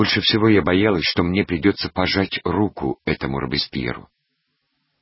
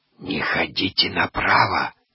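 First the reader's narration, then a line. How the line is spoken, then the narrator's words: Whispered. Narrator (Russian): шепнула хозяйка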